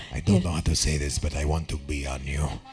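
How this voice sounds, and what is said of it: Put-on Eastern European accent. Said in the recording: “any, Eastern European accent ... Talk like that.”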